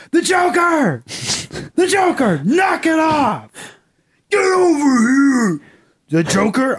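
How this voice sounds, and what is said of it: Yelling. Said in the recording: “you're yelling at your dog”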